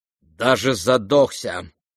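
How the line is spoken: Cold and sharp. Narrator (Russian): холодно и резко произнесла Лизавета Прокофьевна

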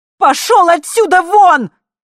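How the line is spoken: Yelling. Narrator (Russian): снова заорала я

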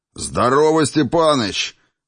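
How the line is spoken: Loud bark. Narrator (Russian): гаркнул Райнер

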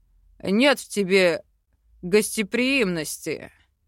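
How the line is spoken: Snort. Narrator (Russian): хмыкнул Йоран

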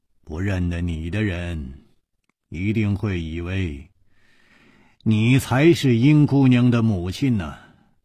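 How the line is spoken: Sighing. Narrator (Chinese): 楚留香叹了一口气说

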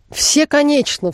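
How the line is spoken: Exclaimed. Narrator (Russian): вскрикнул Бингли

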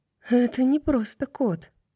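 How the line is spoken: Hoarse wheeze. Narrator (Russian): прохрипела она

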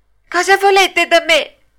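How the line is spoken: Frightened shout. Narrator (Italian): gridò Pinocchio tutto impaurito

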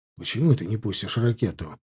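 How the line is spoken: Whisper. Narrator (Russian): шепнул ему

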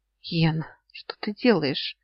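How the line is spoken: Hoarse croak. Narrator (Russian): хрипнула

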